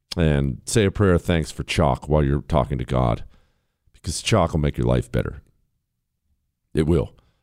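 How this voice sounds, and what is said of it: Hoarse, raspy laryngitis voice. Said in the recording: “my weird voice today ... you want a voice like this? It takes testosterone ... and maybe a little bit of laryngitis”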